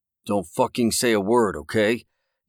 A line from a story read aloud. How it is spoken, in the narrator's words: Daryl said through his teeth